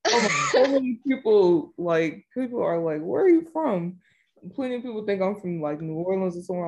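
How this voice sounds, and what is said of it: Thick Southern American accent. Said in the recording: “I love the thickness of that accent you've got ... anytime I hear a Southern accent”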